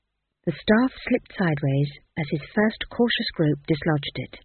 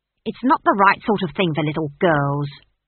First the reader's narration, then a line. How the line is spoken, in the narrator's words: snapped the barman's wife